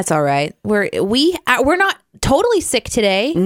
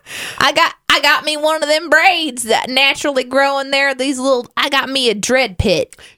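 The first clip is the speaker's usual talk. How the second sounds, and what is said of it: Funny backwoods rural accent. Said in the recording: “I really like your it's that funny. Accent. I feel like I'm at Silver Dollar City.”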